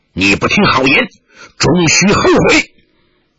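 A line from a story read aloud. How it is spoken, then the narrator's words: Angry. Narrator (Chinese): 连城虎……怒道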